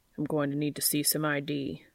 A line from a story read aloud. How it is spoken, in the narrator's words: said gruffly